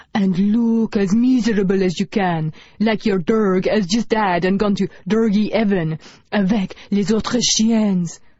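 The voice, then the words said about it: Put-on French accent. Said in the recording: “in a French accent”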